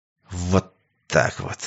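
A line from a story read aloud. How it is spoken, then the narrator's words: Hissed through teeth. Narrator (Russian): сквозь зубы прошипел Сергей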